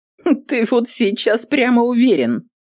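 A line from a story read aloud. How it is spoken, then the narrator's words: Mocking woman. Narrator (Russian): насмешливо проговорила воительница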